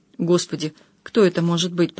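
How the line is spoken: Muttering. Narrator (Russian): пробормотала Маруся

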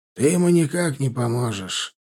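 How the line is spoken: Low husky mutter. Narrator (Russian): пробормотал он низко и хрипловато

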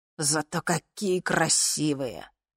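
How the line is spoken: Pilot, caustic, through teeth. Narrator (Russian): едко процедил один из пилотов

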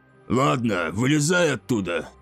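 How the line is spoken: Grumbling captain. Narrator (Russian): проворчал капитан

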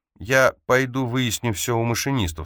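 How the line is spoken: Plain. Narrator (Russian): сказал Лео

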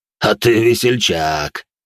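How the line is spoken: Tipsy chuckle. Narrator (Russian): хохотнул старший инквизитор, как будто находился под градусом

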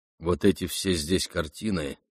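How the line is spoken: Plain. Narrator (Russian): сказал он

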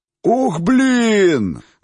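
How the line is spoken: Howled. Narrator (Russian): взвыл хозяин гестхауса

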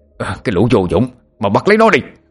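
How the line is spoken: Young men shouting. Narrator (Vietnamese): Ba người thanh niên còn lại la hét

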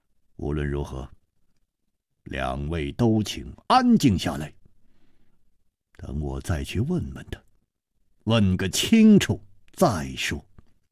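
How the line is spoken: Deep, grave voice. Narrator (Chinese): 楚留香默然半晌，沉声说

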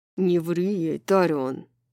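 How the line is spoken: Growl. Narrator (Russian): прорычал Хант

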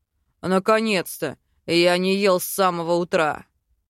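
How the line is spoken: Grumbling. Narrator (Russian): Проворчал Велитар

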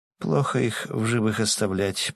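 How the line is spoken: Muttered. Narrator (Russian): пробормотала она

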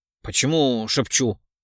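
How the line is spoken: Surprised mutter. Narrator (Russian): Удивленно пробормотал Ямпольский

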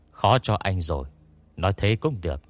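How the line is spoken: Young man, soft laugh. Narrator (Vietnamese): Nam thanh niên khẽ cười nói

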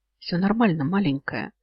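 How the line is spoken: Soft, smiling. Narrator (Russian): темный мягко улыбнулся

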